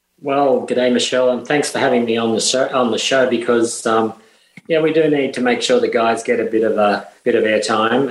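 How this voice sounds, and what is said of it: Australian accent. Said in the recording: “is also from Down Under, and you'll get to listen to his accent”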